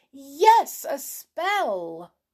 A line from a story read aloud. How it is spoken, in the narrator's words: She cried this out in such a loud voice that Pipperty heard it up on the roof